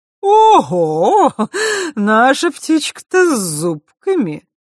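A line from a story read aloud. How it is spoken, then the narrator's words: Sudden laughter. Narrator (Russian): вдруг рассмеялась Хранимара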